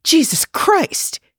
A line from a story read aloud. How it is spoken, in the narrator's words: he gasped